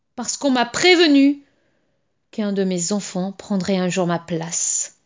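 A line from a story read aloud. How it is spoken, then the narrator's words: Grumbling. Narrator (French): grogna-t-il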